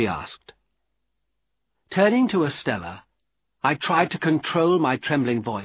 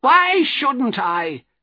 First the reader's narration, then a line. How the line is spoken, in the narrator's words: she cried wildly